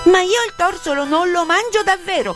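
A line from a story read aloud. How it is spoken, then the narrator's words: Shout. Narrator (Italian): gridò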